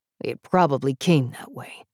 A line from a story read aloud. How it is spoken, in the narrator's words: Jacken grumbled